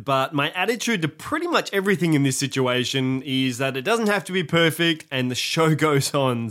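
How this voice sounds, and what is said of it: Congested, stuffy-nosed voice. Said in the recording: “I sound a bit weird, ... I've got a bug and I'm congested”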